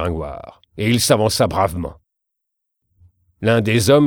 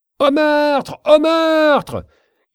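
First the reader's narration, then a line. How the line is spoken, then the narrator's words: Desperate woman screaming. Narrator (French): criait la malheureuse bohémienne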